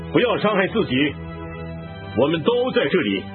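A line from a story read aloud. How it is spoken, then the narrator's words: Loud call. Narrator (Chinese): 保罗大声呼叫说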